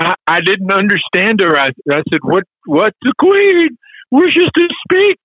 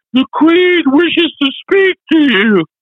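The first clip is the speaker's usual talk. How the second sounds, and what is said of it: Poor British female accent. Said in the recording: “in my very poor British female accent”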